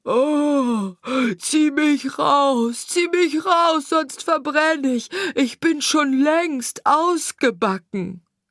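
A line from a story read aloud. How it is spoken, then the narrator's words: Bread screaming again. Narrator (German): schrie das Brot wieder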